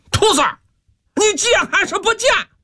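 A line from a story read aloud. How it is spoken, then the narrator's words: Furious roar. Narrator (Chinese): 木来气急败坏，大吼一声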